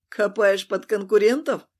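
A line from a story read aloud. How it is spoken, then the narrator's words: Laughing, over the phone. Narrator (Russian): хохотнула на другом конце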